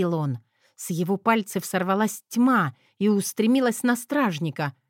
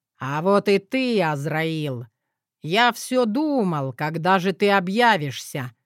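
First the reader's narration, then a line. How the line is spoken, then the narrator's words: Plain. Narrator (Russian): сказал Эдуард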